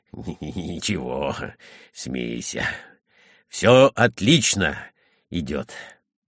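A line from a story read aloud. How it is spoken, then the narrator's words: Approving mutter. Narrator (Russian): Юся одобрительно бормотал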